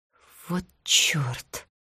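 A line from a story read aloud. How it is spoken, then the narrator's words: Whisper. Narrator (Russian): прошептала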